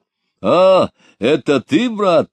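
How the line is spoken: Exclaiming. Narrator (Russian): воскликнул Григорий Григорьевич

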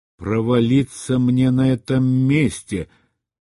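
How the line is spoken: Grumbling mutter. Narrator (Russian): пробурчал Рэндом

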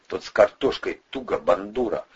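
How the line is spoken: Muttered reply. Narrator (Russian): буркнул ответ Атасов

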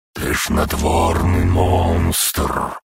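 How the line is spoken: Hissed. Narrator (Russian): прошипел голос

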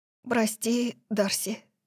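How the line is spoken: Hoarse voice. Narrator (Russian): сказала она хриплым голосом

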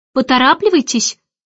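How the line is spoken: Sharp hurrying call. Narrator (Russian): прикрикнула Мэри Поппинс

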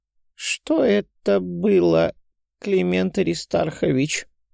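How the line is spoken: Tired question. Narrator (Russian): устало спросила Арина Александровна

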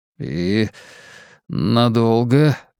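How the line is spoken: Strained, forced out. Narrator (Russian): выдавил

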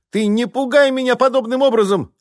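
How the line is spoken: Sorceress's shrill squeal. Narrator (Russian): взвизгнула магичка

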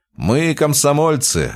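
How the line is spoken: Laughing. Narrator (Russian): рассмеялся Михаил

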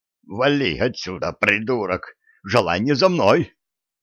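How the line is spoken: Hissing man. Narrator (Russian): прошипел мужик

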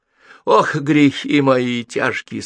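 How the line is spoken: Moaning. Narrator (Russian): стонал Почишин

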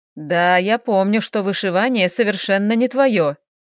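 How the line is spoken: Chuckling. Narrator (Russian): хохотнул лорд Марко

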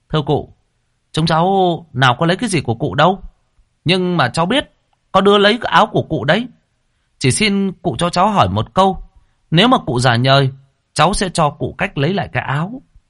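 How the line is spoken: Smiling, calling down. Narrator (Vietnamese): Lễ ngồi trên cây mỉm cười mà nói với xuống

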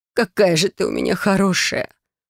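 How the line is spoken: Sobbing. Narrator (Russian): Прорыдала она у меня на плече

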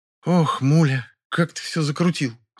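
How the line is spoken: Sighing complaint. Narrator (Russian): вздохнула Белла и пожаловалась

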